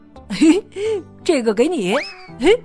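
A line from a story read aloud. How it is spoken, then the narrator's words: Laughing. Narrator (Chinese): 他笑着说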